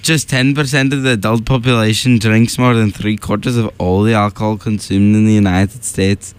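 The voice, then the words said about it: Off Irish accent sounding Scottish. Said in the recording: “Irish accent ... That's Scottish. You're just really off.”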